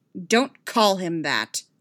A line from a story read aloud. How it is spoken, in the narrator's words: snapped